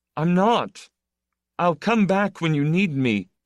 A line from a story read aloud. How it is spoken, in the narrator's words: The young man answered desperately